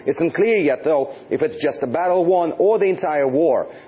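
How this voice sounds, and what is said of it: Russian-accented English. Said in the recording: “the guy had a Russian accent.”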